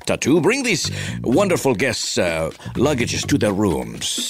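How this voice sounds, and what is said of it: Imitates another person's voice. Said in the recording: “my Ricardo Montalban impression”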